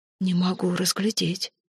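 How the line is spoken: Whispered reply. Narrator (Russian): шепнула в ответ фру Хольмвейк

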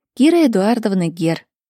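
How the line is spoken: Plain. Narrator (Russian): ответила Кира

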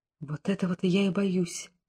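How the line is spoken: Queen's whisper. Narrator (Russian): прошептала царица

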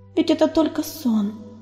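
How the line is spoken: Whisper. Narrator (Russian): прошептала она

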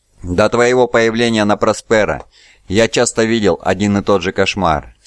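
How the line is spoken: Plain. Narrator (Russian): сказал он

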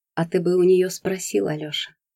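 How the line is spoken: Sad. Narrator (Russian): печально произнесла Юля

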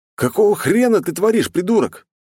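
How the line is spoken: Shouted. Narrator (Russian): крикнул я

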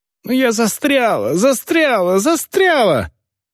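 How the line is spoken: Screaming. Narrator (Russian): закричала пленница

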